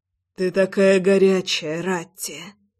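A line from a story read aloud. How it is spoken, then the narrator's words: Hoarse whisper. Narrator (Russian): Хрипло шептал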